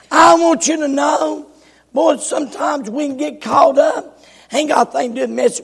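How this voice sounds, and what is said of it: Rough, strained voice. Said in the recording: “my voice is terrible... My voice sounds rough”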